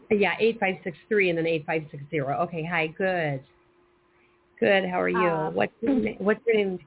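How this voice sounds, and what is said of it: Slightly raspy voice. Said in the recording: “I'm a little raspy this morning.”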